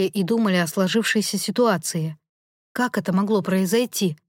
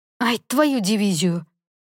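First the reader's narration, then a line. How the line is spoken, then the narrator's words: Sharp exclamation, elder son. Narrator (Russian): резко воскликнул старший из сыновей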